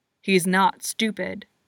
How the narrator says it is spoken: he snarls

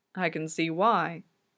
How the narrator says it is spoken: Celestino mumbles to himself

